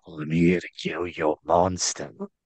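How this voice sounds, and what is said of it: Whispered put-on Cockney accent. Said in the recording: “whisper in a Cockney accent in her ear, kind of like Ray Stevenson”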